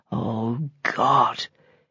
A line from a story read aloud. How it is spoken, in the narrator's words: he murmured